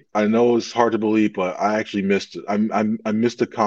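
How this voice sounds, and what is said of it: Usual voice. Nothing is said of it.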